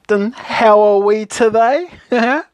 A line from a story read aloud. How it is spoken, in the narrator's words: laughed